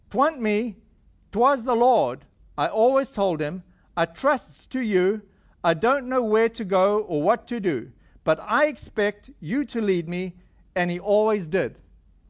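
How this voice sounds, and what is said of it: Slow reading in imperfect put-on dialect. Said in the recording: “read this slowly because my accent's not too good yet”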